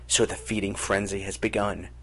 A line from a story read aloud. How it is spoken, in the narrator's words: thought Jara bitterly